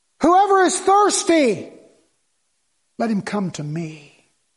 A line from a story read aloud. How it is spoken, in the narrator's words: he cried